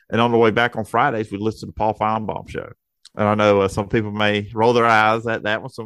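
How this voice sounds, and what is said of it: Southern American accent. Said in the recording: “as you can hear and your audience can hear, and I have a Southern accent. ... no one would dare put this accent on the air”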